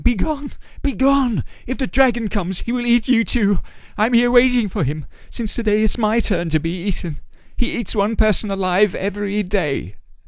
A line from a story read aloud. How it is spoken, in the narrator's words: She cried